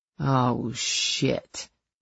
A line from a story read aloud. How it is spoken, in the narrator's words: Carrie muttered